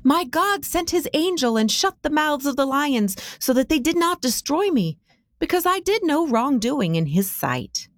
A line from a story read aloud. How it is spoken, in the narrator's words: Daniel's voice called out loud and strong